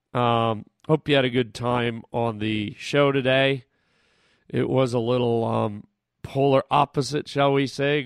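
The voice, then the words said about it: Hoarse, fading voice. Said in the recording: “I'm losing my voice here. I don't know why. Just because I'm all fired up”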